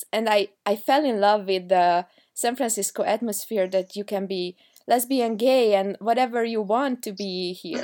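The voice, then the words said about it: Heavy foreign accent. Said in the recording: “I had a very heavy accent. I mean, maybe still do.”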